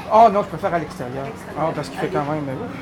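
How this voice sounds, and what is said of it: Non-European regional French accent. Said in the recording (French): “J'aime bien entendre l'accent comme ça. ... ça fait penser à la variété du français qui a voyagé comme ça dans le monde ... le français du 18e siècle, c'était comme le mien”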